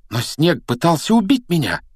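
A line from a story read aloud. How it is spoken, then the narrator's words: Exclamation. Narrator (Russian): воскликнул он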